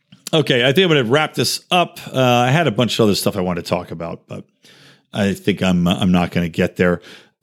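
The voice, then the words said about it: Hoarse, strained voice. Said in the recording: “started losing my voice a little bit too”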